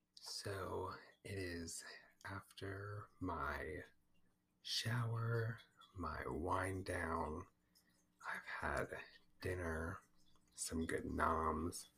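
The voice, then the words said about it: Tired-sounding voice. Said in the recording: “I'm definitely tired. You can probably hear it in my voice.”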